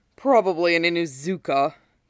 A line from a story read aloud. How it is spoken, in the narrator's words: he scoffs